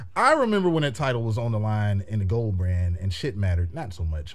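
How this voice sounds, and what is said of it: Usual voice. Nothing is said of it.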